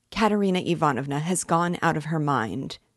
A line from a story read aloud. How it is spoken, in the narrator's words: he blurted out suddenly